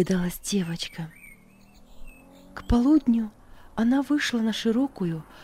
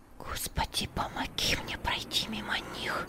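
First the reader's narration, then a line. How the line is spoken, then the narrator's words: Pleading whisper. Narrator (Russian): умоляюще шептала Даша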